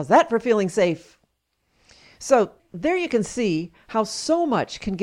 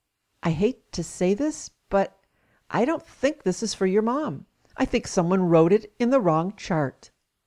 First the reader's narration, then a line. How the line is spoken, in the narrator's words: The nurse quietly said to me